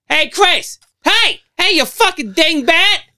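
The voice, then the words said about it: Put-on New Jersey accent. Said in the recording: “he got a fucking Joyzy accent.”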